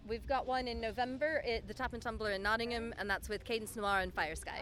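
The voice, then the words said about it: American Indiana accent. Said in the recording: “your accent, where's your accent from? ... Indiana.”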